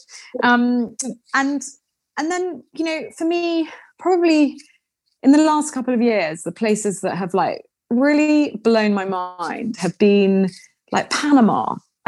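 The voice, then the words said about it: British accent. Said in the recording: “having a British accent ... just by being kind of British”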